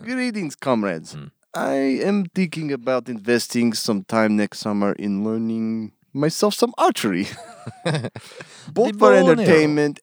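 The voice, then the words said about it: Inconsistent put-on Russian accent. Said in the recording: “You got to do this in a Russian accent. ... You're like in and out of the accent.”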